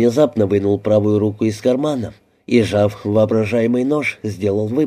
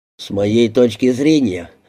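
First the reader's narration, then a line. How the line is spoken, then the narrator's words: Grumbling. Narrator (Russian): проворчал Монаган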